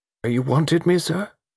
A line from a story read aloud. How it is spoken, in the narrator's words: It was the butler's voice, still quavering and uncertain